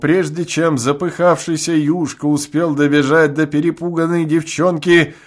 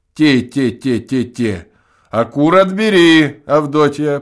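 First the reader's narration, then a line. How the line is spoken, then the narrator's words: Loud voice. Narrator (Russian): прибавил громким голосом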